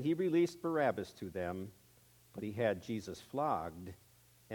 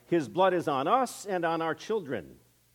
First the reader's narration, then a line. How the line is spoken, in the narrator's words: The people cried